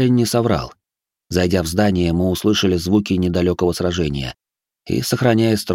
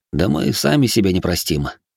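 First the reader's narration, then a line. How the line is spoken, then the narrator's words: Vexed sigh, then command. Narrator (Russian): с досады вздохнул я и скомандовал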